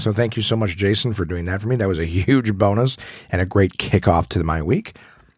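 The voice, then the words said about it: Voice still affected by illness. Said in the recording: “As you can hear in my voice, I'm doing much better, but still not fully recovered. ... has not been my actual voice. It's been some sort of derivative, a filtered version of it”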